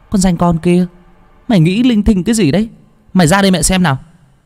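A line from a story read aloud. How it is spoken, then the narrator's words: Mother scolding from outside. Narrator (Vietnamese): Tiếng mẹ quát tháo ở bên ngoài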